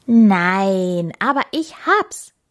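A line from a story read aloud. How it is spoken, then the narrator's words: Hare calling out. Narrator (German): rief der Hase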